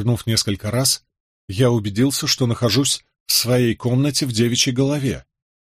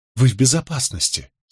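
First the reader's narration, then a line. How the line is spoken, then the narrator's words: Quiet. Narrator (Russian): сказала она негромко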